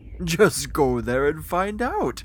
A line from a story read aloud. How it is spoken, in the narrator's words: he laughed